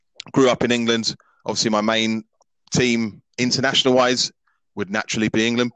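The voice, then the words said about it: English accent. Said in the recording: “as you can tell by my accent, I've got an English accent.”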